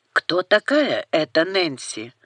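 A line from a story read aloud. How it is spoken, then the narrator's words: Hoarse, sick-sounding voice. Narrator (Russian): У китайца оказался хриплый, простуженный голос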